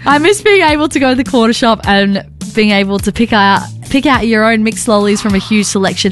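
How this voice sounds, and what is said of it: Put-on accent while reading. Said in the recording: “Do you want to read this in an accent? ... I'm changing my accent.”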